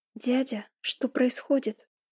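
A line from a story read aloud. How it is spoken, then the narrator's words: Trembling voice. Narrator (Russian): Дрожащим голосом проговорила я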